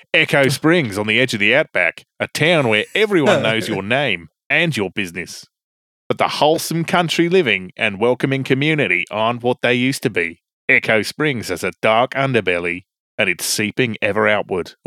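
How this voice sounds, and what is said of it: Put-on Australian accent. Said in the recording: “I need to do an Australian accent.”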